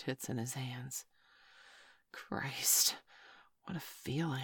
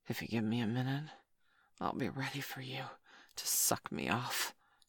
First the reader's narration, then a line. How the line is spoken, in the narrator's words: he gasped